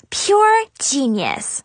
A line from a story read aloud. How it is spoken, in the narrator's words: Chloe said excitedly